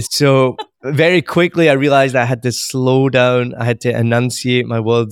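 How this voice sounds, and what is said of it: Strong but softened accent, slow enunciation. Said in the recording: “I do still have a strong accent, I'll grant you that, but it is much more easier to understand. It's a lot softer than it could have been.”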